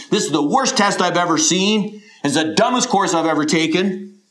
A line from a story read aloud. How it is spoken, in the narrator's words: He exclaimed